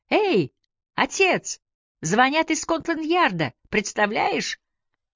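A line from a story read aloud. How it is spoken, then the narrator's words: Joyful yell. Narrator (Russian): Он радостно завопил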